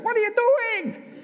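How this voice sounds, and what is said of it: Vague non-English put-on accent. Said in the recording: “I don't know what kind of accent that was, but anyway, there we go. Wasn't English.”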